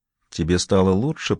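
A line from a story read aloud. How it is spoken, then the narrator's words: Whispered. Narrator (Russian): прошептала Рейн-Мари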